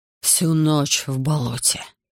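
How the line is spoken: Hoarse, teeth chattering. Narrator (Russian): не попадая зуб на зуб, прохрипел он

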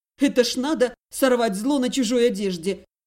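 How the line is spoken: Loud contemptuous snort. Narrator (Russian): Громко и презрительно фыркнула

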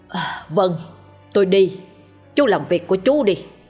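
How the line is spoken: Loud older man. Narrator (Vietnamese): ông Hiếu lớn tiếng

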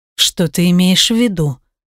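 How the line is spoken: Hoarse question. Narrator (Russian): спрашивает хрипло

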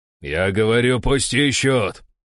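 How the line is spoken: Angry bark over radio. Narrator (Russian): рявкнул в рацию, злясь уже не на меня

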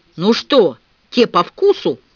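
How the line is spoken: Growling from behind fence. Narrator (Russian): прорычал Дикон из-за забора

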